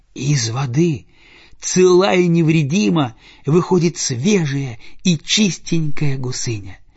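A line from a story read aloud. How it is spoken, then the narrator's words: Joyful telling. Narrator (Russian): Радостно рассказывает она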